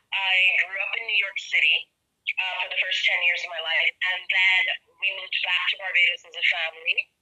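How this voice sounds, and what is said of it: Mixed accent. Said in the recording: “people never know where my accent's from, because it depends on how I feel, how I speak ... I have this mixed accent”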